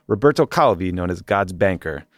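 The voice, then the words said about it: Attempted Italian accent. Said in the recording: “I tried to do an Italian accent.”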